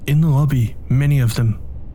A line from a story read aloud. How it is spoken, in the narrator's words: Tony said